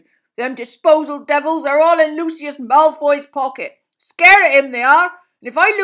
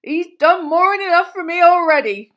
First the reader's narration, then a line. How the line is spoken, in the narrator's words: groaned Hagrid